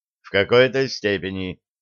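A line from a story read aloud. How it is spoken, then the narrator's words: Almost calm. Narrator (Russian): сказал Стахеев почти спокойно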